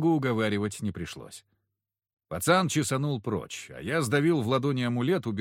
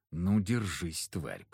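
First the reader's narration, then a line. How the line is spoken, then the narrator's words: Through clenched teeth. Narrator (Russian): процедил сквозь зубы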